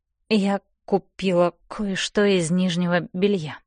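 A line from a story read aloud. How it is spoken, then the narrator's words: Mumbling. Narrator (Russian): мямлю я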